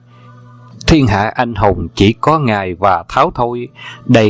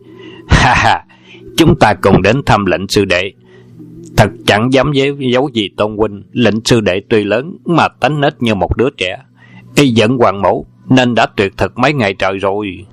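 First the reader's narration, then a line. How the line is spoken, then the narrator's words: Loud laughing. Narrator (Vietnamese): Hoàng dược sư cười to lên, nói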